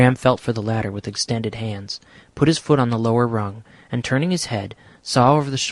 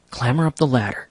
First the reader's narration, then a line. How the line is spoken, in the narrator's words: whispered